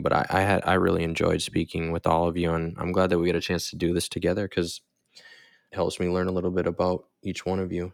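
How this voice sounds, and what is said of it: Sultry late-night radio host voice. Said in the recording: “you've got this sultry, like late night drive time host voice ... It's my podcast voice.”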